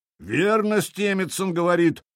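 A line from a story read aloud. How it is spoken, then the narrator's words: Booming drone. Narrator (Russian): прогудел Хрольф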